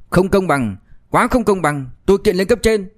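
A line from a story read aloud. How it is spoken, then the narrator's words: Loud, aggressive. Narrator (Vietnamese): Quách Trinh Huy hung hăng, lớn tiếng nói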